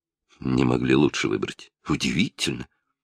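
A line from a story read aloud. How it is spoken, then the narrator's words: Muttering under breath. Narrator (Russian): бормоча себе под нос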